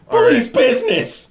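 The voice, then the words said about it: Hoarse, squeaky shout. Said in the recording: “my voice squeaks a little because I'm just a little ... hoarse.”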